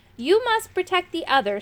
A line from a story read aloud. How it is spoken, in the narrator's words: said Moongobble again